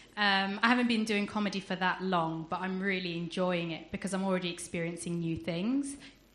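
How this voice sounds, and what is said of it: Regional accent from down south. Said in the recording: “as you can probably tell from my accent, I'm not from around here. I'm from down south.”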